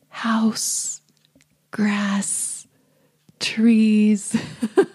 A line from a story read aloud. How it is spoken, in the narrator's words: stares blankly at him and then turns back to the window and whispers